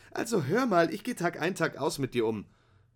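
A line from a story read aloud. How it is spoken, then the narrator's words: Indignant shout. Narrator (German): rief Ruby empört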